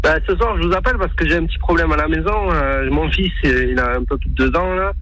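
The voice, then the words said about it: Southwestern French accent. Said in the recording (French): “l'accent du sud ... accent du sud-ouest”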